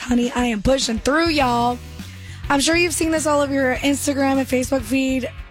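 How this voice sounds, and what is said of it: Hoarse, strained voice. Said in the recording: “I know I am losing my voice.”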